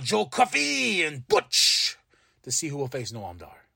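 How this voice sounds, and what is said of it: Put-on accent. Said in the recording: “I don't know why I went to that accent.”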